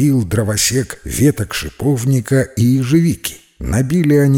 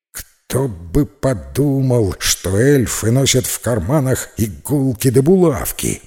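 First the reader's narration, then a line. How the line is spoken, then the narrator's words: Witch grumbling. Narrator (Russian): пробурчала ведьма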